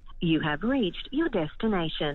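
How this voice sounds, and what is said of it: Siri voice-assistant voice. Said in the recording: “slip into Siri's voice again”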